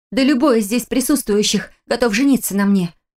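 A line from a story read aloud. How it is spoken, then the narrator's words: Self-convincing exclamation. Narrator (Russian): воскликнула я, больше пытаясь убедить себя, чем собеседницу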